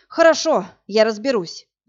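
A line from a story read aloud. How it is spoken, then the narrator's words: Sighing. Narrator (Russian): вздохнул Власик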